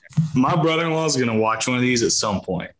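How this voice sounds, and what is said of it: Southern US accent. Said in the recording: “your accent's a little different than Ryan and I ... you're from the South”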